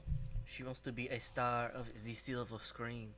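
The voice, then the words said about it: Put-on unidentified accent. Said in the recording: “I don't know what accent that is, but I'm going to go with it.”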